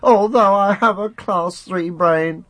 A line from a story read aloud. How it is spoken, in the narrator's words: the penner cried